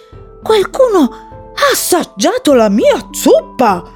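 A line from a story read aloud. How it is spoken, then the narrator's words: Papa bear exclaiming. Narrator (Italian): esclamò papà orso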